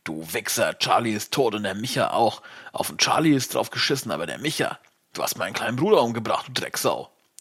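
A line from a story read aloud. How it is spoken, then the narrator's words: Bellowing junkie. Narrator (German): brüllt der Junkie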